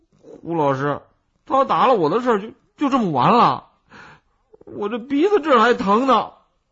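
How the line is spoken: Whining. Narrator (Chinese): 金豆哭丧着脸，一面说

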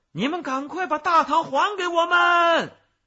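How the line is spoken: Women shouting together. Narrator (Chinese): 两个女人 一起 大喊

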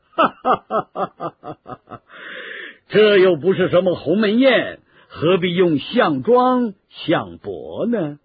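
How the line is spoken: Laughing. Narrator (Chinese): 刘备听了也笑了起来

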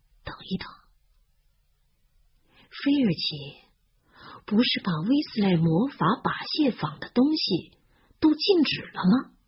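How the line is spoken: Slow, drawling. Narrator (Chinese): 他慢吞吞地说

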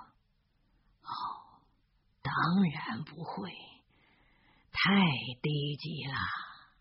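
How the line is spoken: Soft, after long pause. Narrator (Chinese): 足足过了两分钟，轻声地说

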